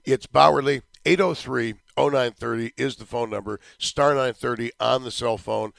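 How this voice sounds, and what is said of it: Strained, damaged voice. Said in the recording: “don't worry about the voice... this stupid voice nonsense is driving me a little bit crazy... Voice Recovery Week”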